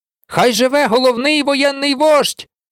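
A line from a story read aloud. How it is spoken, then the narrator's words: Shouting. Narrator (Ukrainian): закричав Сем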